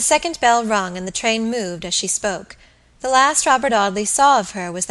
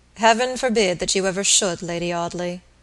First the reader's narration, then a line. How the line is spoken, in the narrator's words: Robert said gravely